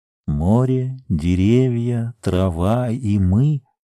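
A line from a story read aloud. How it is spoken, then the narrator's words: Low, hollow, strange voice. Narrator (Russian): сказала Сима низко и глухо, каким-то чужим голосом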